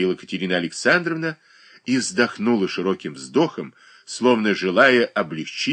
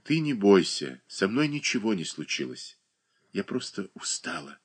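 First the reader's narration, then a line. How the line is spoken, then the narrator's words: Quiet. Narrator (Russian): Катерина Александровна тихо промолвила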